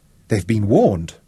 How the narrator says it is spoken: Tara exclaimed

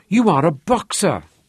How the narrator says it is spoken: he blurted out, unable to contain his wonder and admiration

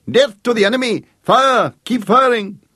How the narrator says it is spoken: shouting with a high, almost girlish hysteria

